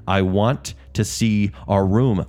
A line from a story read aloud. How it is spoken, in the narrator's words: Rosemary said, raising her voice